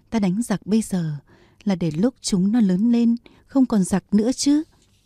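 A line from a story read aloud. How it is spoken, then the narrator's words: Laughing. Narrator (Vietnamese): Bùi Thị Xuân bật cười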